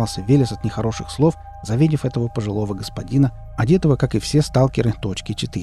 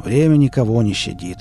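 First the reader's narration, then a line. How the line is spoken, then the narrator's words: Slightly hoarse. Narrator (Russian): проговорил Лом чуть с хрипотцой, которой раньше не было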